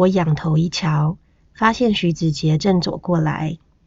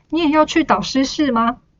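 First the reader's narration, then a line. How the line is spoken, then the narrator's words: Smiling, affectionate question. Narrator (Chinese): 何立文笑问，态度亲昵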